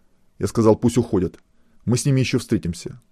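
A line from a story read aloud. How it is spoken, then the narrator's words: Angry threat. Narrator (Russian): зло пообещал Глебов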